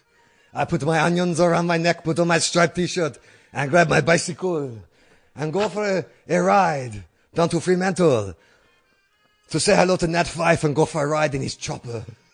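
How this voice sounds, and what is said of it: Put-on accent drifting toward Asian. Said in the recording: “My accent is slipping very badly. I think I am now moving into more Asian accent”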